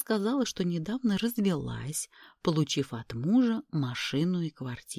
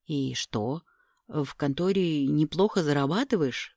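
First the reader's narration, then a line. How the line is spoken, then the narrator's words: Through gritted teeth. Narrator (Russian): поинтересовался сквозь зубы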